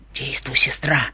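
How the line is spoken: Faint whisper into microphone. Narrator (Russian): чуть слышно прошептала она в микрофон

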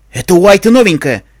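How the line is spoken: Shout. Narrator (Russian): крикнул Йен

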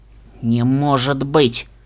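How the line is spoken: Forced out words. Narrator (Russian): Наконец выдавила она

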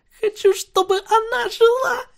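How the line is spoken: Whimpering. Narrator (Russian): Пони уже натурально скулила

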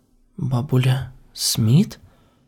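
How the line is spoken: Whisper. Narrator (Russian): прошептала я

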